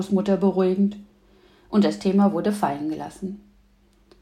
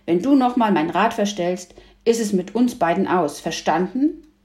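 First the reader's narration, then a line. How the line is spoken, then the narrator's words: Calling out. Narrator (German): rief Hütchen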